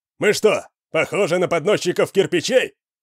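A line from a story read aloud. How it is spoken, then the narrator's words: Shouting. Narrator (Russian): крикнул кто-то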